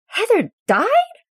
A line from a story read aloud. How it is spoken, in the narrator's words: Scott screeches